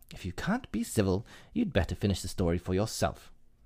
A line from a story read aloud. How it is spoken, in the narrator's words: the Dormouse sulkily remarked